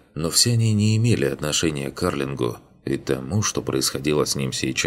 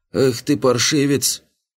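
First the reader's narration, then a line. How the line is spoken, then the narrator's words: Creaky male shout. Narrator (Russian): кричал скрипучий мужской голос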